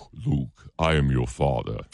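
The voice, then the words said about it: Darth Vader impression. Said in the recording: “your Darth Vader voice”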